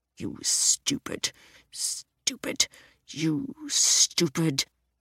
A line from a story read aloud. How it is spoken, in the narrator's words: he muttered, as if he were searching for the very worst insult he could think of